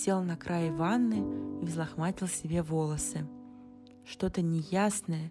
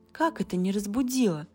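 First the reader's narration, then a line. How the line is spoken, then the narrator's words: Surprised exclamation. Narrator (Russian): воскликнула Кэти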